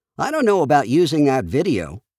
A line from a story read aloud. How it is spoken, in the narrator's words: he said